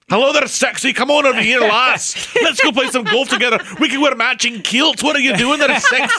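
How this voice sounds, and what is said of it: Put-on Scottish accent. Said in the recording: “Scottish”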